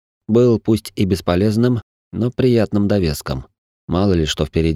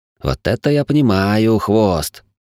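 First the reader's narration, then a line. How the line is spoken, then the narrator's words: Snorting laugh. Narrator (Russian): Не сдержавшись, Хим фыркнул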